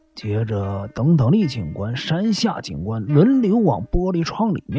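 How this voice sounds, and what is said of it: Usual voice. Nothing is said of it.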